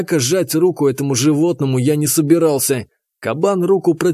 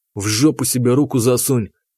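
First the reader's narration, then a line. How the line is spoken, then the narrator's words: Through gritted teeth. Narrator (Russian): процедил я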